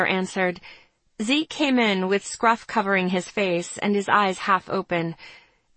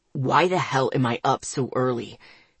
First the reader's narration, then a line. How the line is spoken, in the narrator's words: Zeke grumbled